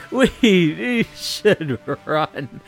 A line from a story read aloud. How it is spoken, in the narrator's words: In between fits of laughing, is going to say